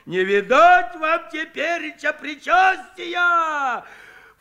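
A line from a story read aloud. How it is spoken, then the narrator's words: Mock-horrified shout. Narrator (Russian): В притворном ужасе закричал Куженков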